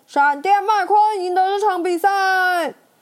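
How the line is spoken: Loud announcement. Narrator (Chinese): 播报员大声宣布

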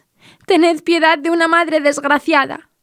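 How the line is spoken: Sobbing. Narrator (Spanish): le dijo entre sollozos

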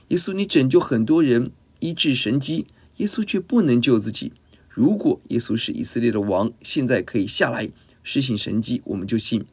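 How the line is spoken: Mocking jeer. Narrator (Chinese): 市井小民讥笑耶稣，祭司长文士也是这样，十字架前嘲笑攻击耶稣

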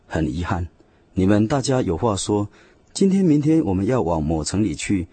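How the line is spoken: Sighing, rueful. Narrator (Chinese): 使徒雅各也感叹地说

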